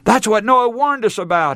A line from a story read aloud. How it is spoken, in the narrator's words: he cried